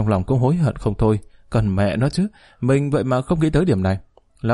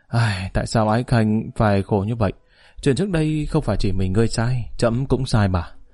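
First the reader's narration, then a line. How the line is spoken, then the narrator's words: Emotional sighing voice. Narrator (Vietnamese): Tống Huy Tông tràn đầy xúc động, thở dài một tiếng nói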